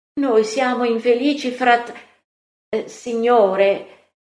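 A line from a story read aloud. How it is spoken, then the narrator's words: Exclamation. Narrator (Italian): Giacomo d'Alfeo esclama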